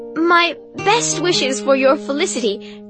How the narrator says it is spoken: laughter

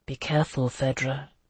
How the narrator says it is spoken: he said softly

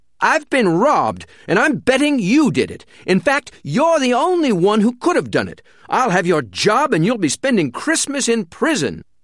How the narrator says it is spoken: he roared

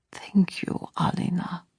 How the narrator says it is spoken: he whispered

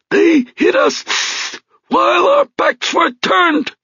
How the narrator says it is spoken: croaked Gus Panos

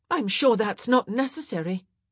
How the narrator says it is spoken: the woman in question blurted out

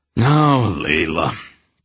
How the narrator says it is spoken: King Thorek said in an embarrassed voice

